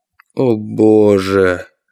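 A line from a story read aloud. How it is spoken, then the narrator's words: Moaning. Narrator (Russian): простонал Борт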